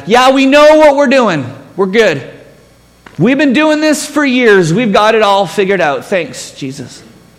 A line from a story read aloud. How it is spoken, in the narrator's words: we're yelling back